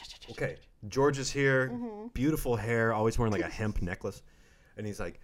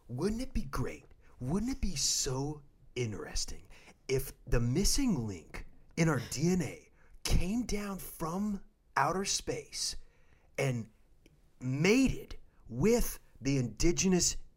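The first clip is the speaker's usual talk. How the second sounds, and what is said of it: Impression of George Tsoukalos. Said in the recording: “Can you do an impression of him?”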